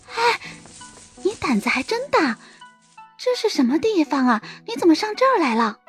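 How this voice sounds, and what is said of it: Quiet, cautious hushed voice. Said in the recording (Chinese): “小声的说着。那副小心翼翼的样子，好像被别人听见一般”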